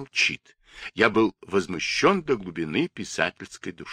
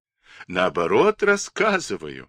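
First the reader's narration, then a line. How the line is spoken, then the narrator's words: Laughing. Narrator (Russian): рассмеялся Андрей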